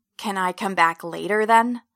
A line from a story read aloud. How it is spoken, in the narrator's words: I hiss